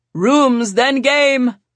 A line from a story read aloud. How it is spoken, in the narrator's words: Sebastian shouted